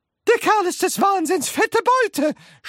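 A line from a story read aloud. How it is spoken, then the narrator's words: Shouting. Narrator (German): schrie Grandma Georgina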